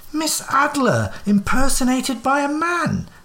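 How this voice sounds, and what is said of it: Roaring, shouted exclamation. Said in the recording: “I roared.”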